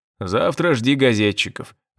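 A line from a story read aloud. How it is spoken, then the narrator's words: Father's snort. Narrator (Russian): отец хмыкнул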